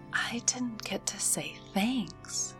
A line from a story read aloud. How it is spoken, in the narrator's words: Eva whispered